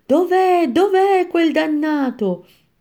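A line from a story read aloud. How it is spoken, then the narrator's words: Shouting centaur. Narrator (Italian): centauro gridava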